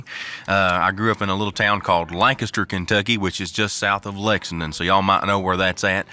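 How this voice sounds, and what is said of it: Strong Kentucky Southern accent. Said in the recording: “I've got quite the strong accent, and that's because I'm from the great state of Kentucky”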